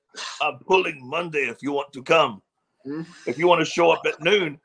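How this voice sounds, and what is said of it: Put-on Bulgarian accent. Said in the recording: “in his Bulgarian accent”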